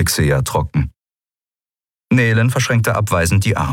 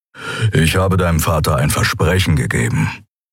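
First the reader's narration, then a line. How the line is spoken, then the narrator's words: Grumbling. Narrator (German): brummte Keru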